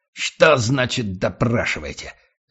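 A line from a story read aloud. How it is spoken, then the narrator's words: Barking, triumphant. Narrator (Russian): рявкнул Гатриан, внутренне торжествуя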